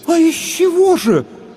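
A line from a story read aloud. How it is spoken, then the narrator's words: Puzzled women in unison. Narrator (Russian): в один голос воскликнули озадаченные женщины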